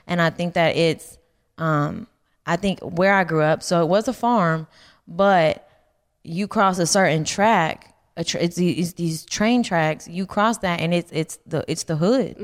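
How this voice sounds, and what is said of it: Twangy voice with a lisp. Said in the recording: “weird voice, but it's a unique voice... I think it's the twang... I think it's mixed with the lisp”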